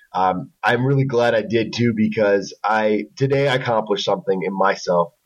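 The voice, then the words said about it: Raspy hoarse voice. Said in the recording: “sorry for my voice. It is so raspy”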